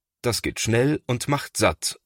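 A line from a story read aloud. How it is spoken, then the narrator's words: Plain. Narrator (German): sagt Thomas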